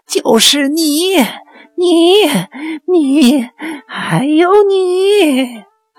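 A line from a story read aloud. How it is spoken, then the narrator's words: Shrill shout. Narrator (Chinese): 尖声叫道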